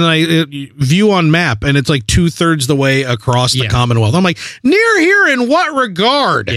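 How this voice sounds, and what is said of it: Usual voice. Nothing is said of it.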